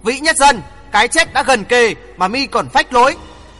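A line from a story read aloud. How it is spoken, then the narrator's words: Booming laughter. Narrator (Vietnamese): Hoàng Thượng Chí cười oang oang vang dội cả căn phòng nói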